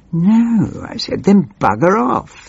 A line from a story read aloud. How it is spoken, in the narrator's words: he snarled